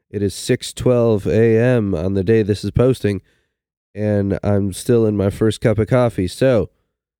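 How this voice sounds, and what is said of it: Voice affected by a cold. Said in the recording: “Excuse my voice. I have a cold.”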